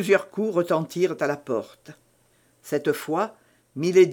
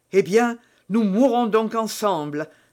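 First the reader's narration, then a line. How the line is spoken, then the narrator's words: Exclaimed. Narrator (French): s'écria-t-il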